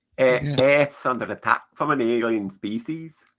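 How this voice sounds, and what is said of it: Imitated accent with Liverpool traces. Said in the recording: “There's a bit of Liverpool in there”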